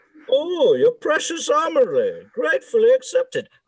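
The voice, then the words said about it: Muffled Bane villain voice. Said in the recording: “I could go for Batman... Probably just sounded like mumble... That was beautiful... a good Bane impression”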